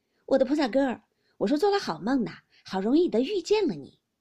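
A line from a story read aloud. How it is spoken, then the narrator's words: Two men laughing together. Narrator (Chinese): 相公、沾光、单聘人二人都笑着都道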